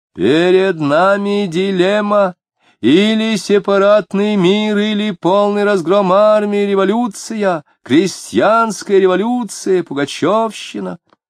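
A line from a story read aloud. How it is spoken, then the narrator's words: Shouted. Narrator (Russian): Кричал оратор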